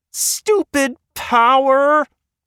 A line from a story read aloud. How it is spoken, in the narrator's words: the screaming voice came from the hallway